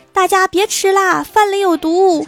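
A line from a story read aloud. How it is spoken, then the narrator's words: Loud shout. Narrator (Chinese): 室友大声叫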